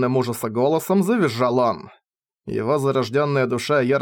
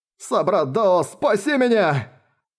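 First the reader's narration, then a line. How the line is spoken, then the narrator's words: Terrified man screaming. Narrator (Russian): В ужасе завопил мужчина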